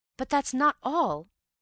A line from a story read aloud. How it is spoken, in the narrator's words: I cried